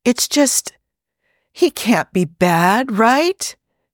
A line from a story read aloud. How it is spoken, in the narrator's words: she says wistfully, obviously not listening